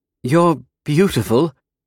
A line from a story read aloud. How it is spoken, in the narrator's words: Cecilia blurted